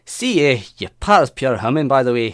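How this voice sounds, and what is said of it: Fairly good put-on Scottish accent. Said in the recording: “I find Scottish very difficult... That's not bad at all. That's pretty bloody good.”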